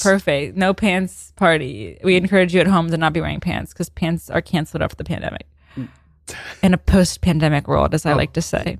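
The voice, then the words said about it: News anchor style voice. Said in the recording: “you sounded like you had an impression right there ... my news impression”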